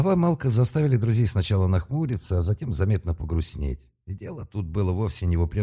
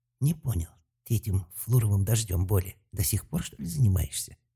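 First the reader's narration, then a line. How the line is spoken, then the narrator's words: Whispered question. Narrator (Russian): шепотом спросил Талфан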